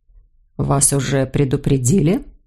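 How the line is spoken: Quiet. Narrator (Russian): тихо произнес Леон де Вальми

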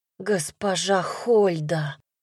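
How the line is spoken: Stunned breathless gasp. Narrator (Russian): выдохнул он ошарашенно

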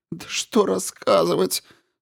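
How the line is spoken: Sobbing. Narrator (Russian): Снова разрыдалась

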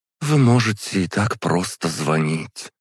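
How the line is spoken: Forced out. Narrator (Russian): выдавила из себя Ковалева

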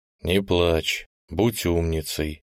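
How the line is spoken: Soft, gentle. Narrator (Russian): мягко сказал дядя Линь

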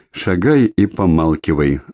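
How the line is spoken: Dry, curt. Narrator (Russian): сухо проговорил Егор

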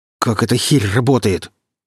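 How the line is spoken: Angry hiss. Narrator (Russian): зло прошипел сталкер

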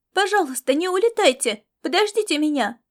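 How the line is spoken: Running boy's shout. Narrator (Russian): выкрикнул бегущий мальчик

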